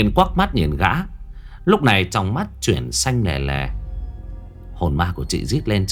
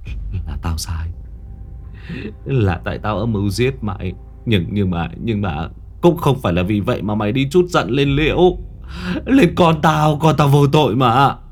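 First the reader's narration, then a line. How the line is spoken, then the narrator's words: Trembling. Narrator (Vietnamese): Gã run run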